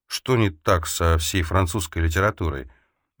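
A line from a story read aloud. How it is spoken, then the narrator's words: Quiet. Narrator (Russian): Эльза тихонько произнесла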